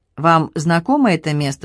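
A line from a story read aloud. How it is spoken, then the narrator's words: Plain. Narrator (Russian): спросил Сет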